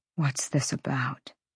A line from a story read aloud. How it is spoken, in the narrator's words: He murmured